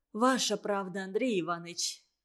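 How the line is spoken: Sighing. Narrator (Russian): вздохнула Катерина

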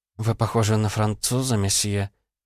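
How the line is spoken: Murmuring. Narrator (Russian): пробормотала она

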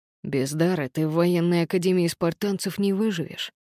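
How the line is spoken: Serious tone. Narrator (Russian): серьезным тоном сказал Патро

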